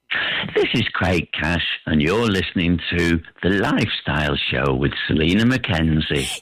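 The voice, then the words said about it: Posh-sounding voice. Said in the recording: “You said it in your you posh voice ... That was posh. It didn't sound like you.”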